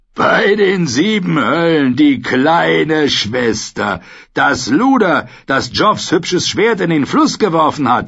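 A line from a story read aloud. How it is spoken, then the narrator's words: Roaring with laughter. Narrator (German): Er brüllte vor Lachen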